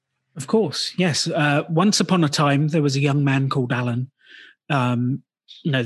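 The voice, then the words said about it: British accent. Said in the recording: “you have a British accent”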